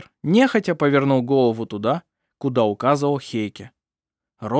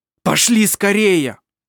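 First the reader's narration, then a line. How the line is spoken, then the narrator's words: Shouted. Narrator (Russian): крикнул Хейке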